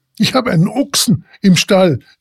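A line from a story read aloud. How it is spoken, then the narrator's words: Laborer exclaiming wide-eyed. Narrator (German): rief nun der Taglöhner aus, mit aufgerissenen Augen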